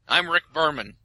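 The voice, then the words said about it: Imitates another person's voice. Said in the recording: “that's as dead on as your Picard impression, I assume.”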